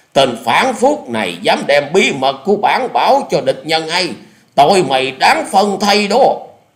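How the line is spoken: Commanding shout. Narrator (Vietnamese): quát lên một tiếng như lệnh dở

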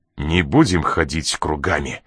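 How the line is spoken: Suddenly sharp voice. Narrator (Russian): проговорил неожиданно резким голосом

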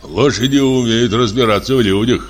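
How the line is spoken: Gloomy pronouncement. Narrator (Russian): мрачно изрек второй лошадник

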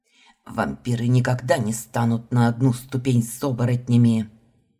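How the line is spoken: Vampire hissing. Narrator (Russian): Прошипел один из вампиров

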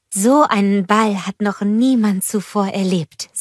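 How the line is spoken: Plain. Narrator (German): sagte Anna

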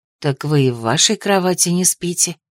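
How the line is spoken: Near whisper. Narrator (Russian): произнесла Дара почти шепотом

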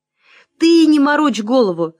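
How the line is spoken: Shouting. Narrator (Russian): закричал Василий Акимыч

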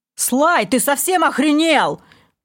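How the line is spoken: Yelling. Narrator (Russian): заорал Вивальди

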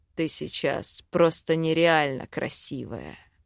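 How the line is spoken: Hoarse rasp. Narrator (Russian): прохрипел он

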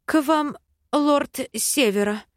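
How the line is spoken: Old dragoness stammering mutter. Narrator (Russian): Запинаясь, бормочет старая драконица

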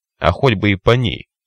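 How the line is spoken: Snapping back. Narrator (Russian): огрызнулся парень

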